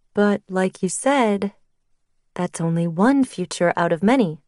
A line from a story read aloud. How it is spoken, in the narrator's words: my mom said gently